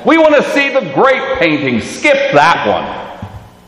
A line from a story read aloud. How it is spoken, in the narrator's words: a voice from somewhere in the crowd shouted